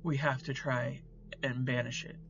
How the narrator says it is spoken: said, his voice shaking slightly

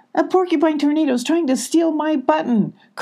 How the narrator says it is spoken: cried Abby

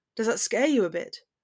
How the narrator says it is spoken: He growls

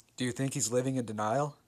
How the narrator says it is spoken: my dad said

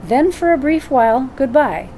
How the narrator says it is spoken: said my brother kindly

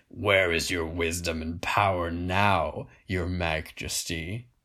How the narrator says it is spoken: growled Grignir

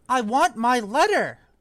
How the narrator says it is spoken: he shouted

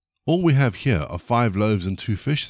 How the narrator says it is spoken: they replied

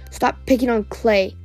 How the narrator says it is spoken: Tsunami growled

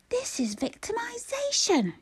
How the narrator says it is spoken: Gabriel roared

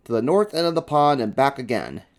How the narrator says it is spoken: shouted the referee

